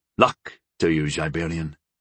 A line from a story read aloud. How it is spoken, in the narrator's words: Gol said in a somber voice